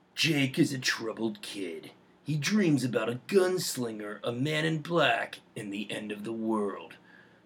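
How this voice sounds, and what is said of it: Dramatic movie trailer voice. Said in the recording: “what is your Dark Tower movie trailer voice?”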